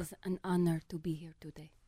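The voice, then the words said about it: Imitated accent, fairly good. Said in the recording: “your accent's not bad, actually.”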